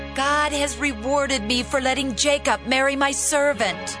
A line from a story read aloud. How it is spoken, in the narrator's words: Leah shouted